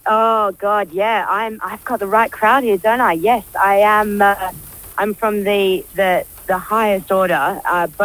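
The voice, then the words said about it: Australian accent. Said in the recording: “you've got an Australian accent obviously”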